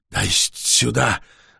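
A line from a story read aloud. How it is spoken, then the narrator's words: Hoarse rasp, vampire. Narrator (Russian): прохрипел вампир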